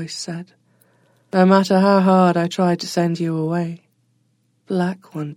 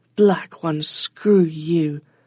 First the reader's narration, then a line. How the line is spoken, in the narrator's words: Onali spat